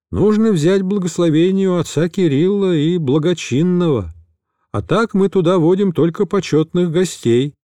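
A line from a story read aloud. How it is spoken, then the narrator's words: Plain. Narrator (Russian): ответил он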